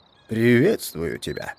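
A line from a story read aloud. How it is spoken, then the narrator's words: Solemn wolf. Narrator (Russian): ответил волк торжественно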